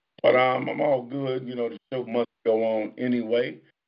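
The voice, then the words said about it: Tired voice, losing his voice. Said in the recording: “I'm kinda sleepy, kinda tired. You can tell I'm losing my voice.”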